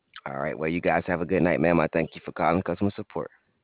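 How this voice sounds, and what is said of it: Noticeable regional accent. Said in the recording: “I love your accent. You sound so cute.”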